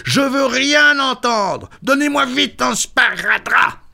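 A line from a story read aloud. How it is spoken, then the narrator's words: Carpenter yelling. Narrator (French): hurla le menuisier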